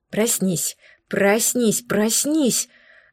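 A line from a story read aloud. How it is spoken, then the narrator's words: Strangled whisper to oneself. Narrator (Russian): сдавленным шепотом требовала я сама у себя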